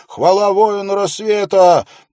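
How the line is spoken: Yelling again. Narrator (Russian): снова завопил

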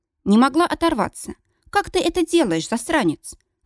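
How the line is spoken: Breathed out. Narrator (Russian): выдохнула я

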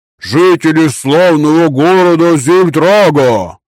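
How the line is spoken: Yelling. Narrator (Russian): завопил пухляш

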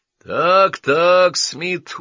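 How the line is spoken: Reproachful booming. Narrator (Russian): укоризненно прогудел тот

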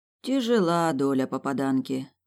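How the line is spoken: Sighing. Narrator (Russian): вздохнула я

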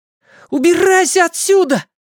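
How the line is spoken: Shout. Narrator (Russian): закричал Майк

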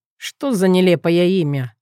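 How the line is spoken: Snorted. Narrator (Russian): фыркнул он

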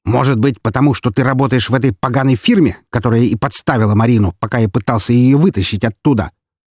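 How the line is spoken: Angry retort. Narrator (Russian): зло возразил ее отец

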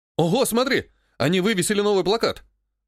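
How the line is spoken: Excited exclamation. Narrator (Russian): воскликнул Клен

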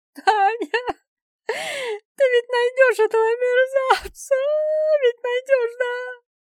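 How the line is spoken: Sobbing. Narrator (Russian): Нина опять зарыдала

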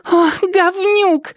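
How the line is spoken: Shriek. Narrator (Russian): взвизгнула Триша

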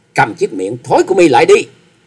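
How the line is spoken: Loud shout. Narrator (Vietnamese): Trịnh Bội Hà quát to

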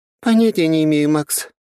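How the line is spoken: Sighing. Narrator (Russian): вздохнула она

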